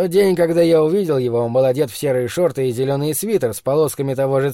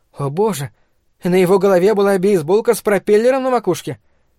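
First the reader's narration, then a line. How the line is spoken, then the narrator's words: Exclaiming woman. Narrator (Russian): Миссис Гибсон воскликнула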